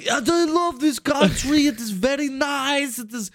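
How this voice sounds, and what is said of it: Fake Italian accent sounding Russian. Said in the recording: “I created my own, what I would think is an Italian accent while I'm drunk ... That's Russian. ... That's just Russian. ... It was like a mix of every fucking thing.”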